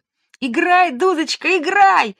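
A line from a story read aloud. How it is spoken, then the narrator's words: Shouting. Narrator (Russian): закричала Женя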